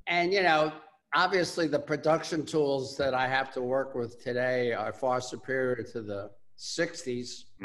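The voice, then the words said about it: Bronx accent. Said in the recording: “I have that Bronx accent.”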